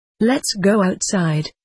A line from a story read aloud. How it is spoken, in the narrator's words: he said